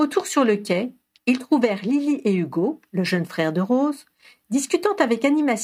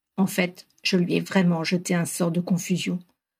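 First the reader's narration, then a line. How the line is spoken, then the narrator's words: Murmured. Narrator (French): murmura Ron à Harry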